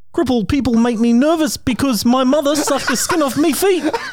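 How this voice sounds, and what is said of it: Put-on New Zealand accent. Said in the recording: “New Zealand is the next accent. ... that was pretty fucking good. Holy shit. I don't know why you changed your voice, but that was actually really good.”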